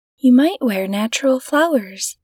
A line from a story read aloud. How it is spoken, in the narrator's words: said her husband